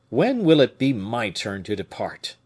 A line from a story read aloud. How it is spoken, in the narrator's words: said he in an agitated voice